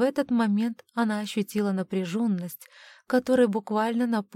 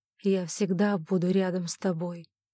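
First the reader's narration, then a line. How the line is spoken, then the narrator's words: Hoarse. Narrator (Russian): Оуэн хрипло сказал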